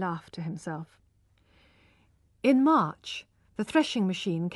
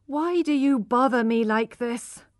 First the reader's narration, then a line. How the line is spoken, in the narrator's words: she cried